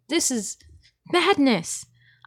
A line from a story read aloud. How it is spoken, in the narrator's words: I exclaimed